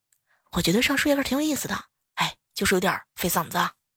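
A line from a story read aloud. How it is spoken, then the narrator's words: Calm, offhand remark. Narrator (Chinese): 教室里头一个男孩对他的同桌淡淡的说了一句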